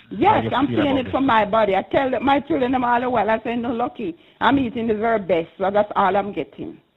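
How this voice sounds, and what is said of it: Passionate, emphatic speaking. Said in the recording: “I can hear the passion in your voice.”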